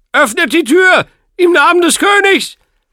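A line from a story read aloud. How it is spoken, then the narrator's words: Echoing shout inside helmet. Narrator (German): Agravains Stimme, widerhallend in der Höhlung seines Helms, rief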